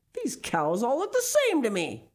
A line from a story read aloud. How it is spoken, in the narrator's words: Big Eddie yelled